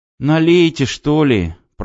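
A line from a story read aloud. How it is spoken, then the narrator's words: Groaning. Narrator (Russian): простонал Костя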